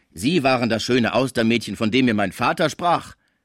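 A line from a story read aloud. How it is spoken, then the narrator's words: Called out. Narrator (German): rief Gaudissart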